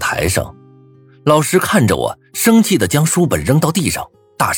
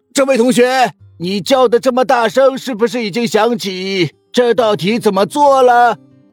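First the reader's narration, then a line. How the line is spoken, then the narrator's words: Offhand reply. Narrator (Chinese): 头也不抬的回道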